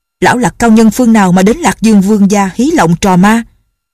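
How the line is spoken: Sharp shout. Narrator (Vietnamese): Vương Trọng Cường quát

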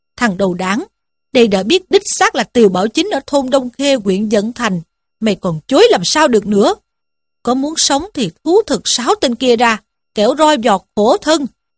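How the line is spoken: Furious shout. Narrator (Vietnamese): Tri phủ cả giận ... quát lên rằng

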